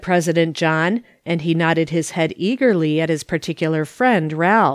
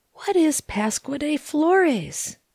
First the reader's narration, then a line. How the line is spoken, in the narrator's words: whispered Kate Whiting